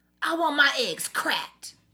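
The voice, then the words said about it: Put-on New York accent. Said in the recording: “Let's do an impression. ... do the impression of New York. ... Ooh, that was good.”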